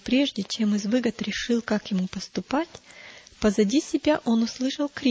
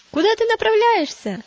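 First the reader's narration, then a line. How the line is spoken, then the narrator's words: Shouting. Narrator (Russian): закричали они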